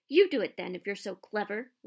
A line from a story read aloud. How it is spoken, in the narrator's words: Ron snarled